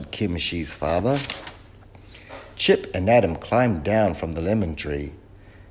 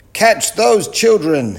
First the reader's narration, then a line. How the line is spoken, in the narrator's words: he yelled